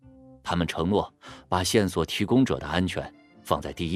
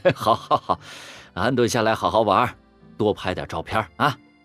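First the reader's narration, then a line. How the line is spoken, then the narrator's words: Surprised, laughing, repeated. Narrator (Chinese): 郑爸爸 笑了，连声说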